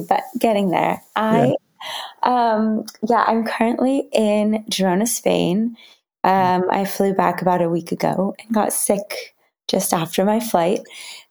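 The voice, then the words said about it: Slightly raspy voice. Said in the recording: “both ... and I are on the back end and recovering from a bit of a cold and getting our voices back... we sound a little raspy... I think we both sound a little raspy”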